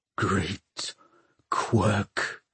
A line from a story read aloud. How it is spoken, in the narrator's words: hissed Valentine